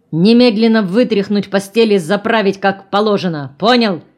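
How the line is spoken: Menacing bark. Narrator (Russian): Снова рявкнул грозно

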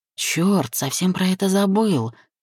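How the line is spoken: Grumble. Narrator (Russian): проворчал я

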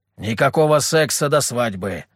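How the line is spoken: Stern. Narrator (Russian): строго сказал Петр

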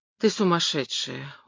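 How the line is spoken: Weary exhale. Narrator (Russian): устало выдохнул я

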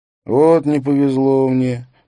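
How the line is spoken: Drawling. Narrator (Russian): протянул Бэнкс

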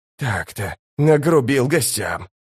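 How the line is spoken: Uncertain mutter. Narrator (Russian): пробормотал он с неуверенной улыбкой

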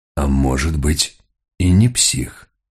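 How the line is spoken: Muttered. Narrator (Russian): пробормотал Мигре

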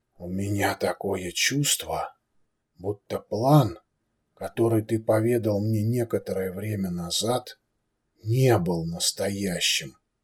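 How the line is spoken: Grumbling. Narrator (Russian): проворчал князь

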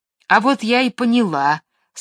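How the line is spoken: Angry. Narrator (Russian): сказала сердито Маша

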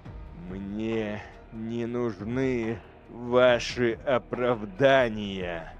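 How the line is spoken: Through gritted teeth. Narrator (Russian): процедил Эйдолан

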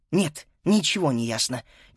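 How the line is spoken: Quiet plaintive reply. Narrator (Russian): тихо и жалобно ответила Фрида

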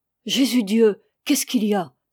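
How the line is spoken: Terrified old woman's cry. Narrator (French): s'écria la vieille Léna, épouvantée

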